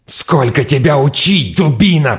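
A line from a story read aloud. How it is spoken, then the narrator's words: Furious hiss. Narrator (Russian): прошипел он яростно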